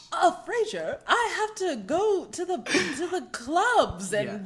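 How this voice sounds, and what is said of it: Imitates a TV character's voice. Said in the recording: “do a Nigel impression ... spot on Nigel impression”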